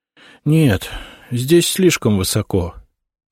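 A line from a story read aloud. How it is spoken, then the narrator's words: Boy's disappointed sigh. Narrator (Russian): огорченно вздохнул мальчик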